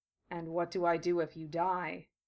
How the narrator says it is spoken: Gara asked, in a listless monotone

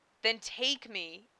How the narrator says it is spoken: Issei begged, hardly even aware of what he was saying

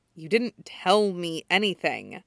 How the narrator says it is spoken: Hana mutters resentfully

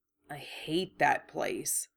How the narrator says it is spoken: Harry muttered

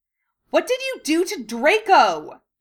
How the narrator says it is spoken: she shrieked loudly

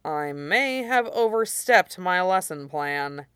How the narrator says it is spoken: he said dryly

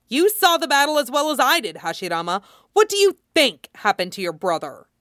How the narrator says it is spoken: he snaps

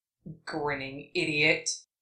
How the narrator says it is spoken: the fox muttered in the back of his head

